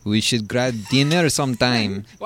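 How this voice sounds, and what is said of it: Exaggerated put-on foreign accent. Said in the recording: “Why do you sound that accent? It's like half ... it's George St. Pierre, ... Speedy Gonzalez versus Jean-Luc Godard or something.”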